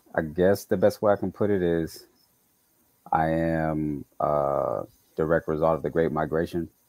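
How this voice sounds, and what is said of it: Slight Southern US accent. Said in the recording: “a lot of people think I'm from the South when I talk... I have a bit of an accent”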